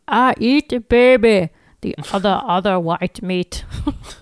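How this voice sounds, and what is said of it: Fat Bastard character impression. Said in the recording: “my Fat Bastard impression”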